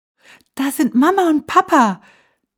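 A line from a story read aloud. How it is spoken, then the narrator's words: Calling out. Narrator (German): rief Hansi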